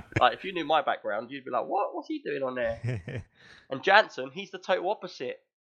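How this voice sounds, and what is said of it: West London accent. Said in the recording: “So London, So South ... I'm from West London. ... I have got that sort of accent.”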